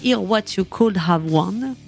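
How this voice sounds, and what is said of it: French-accented English pronunciation. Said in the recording (French): “j'ai un accent incroyable”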